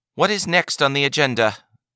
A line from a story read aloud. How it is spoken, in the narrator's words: the Advocate General called out